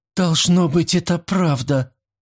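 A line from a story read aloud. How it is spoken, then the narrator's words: Moaning servant. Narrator (Russian): простонала служанка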